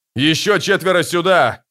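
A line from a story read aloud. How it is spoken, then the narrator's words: Shouting. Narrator (Russian): кричал герцог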